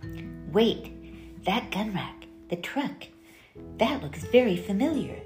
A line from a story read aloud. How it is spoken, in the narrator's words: Grace whispered furtively